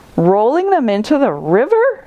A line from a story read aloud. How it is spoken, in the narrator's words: exclaimed Giraffe